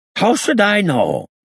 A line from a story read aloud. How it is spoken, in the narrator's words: he said angrily, shaking suddenly all over